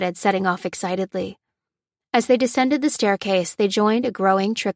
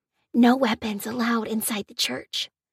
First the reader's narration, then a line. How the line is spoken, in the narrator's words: whispered Shona, explaining